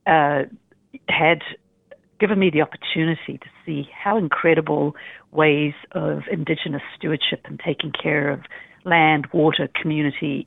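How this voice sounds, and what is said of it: New Zealand accent. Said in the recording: “New Zealand, that's the accent that you can hear”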